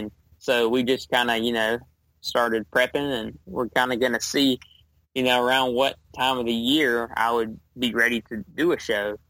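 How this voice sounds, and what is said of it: Southern US Georgia accent. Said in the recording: “I live in Georgia, Southwest Georgia, like literally the southwest corner of Georgia. And you can probably tell from my accent”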